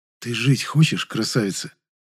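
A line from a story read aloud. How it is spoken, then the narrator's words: Whispered. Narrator (Russian): снова прошептал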